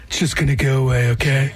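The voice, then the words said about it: Donald Trump impression. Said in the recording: “Did Donald Trump tell you that? ... Don't do that voice again.”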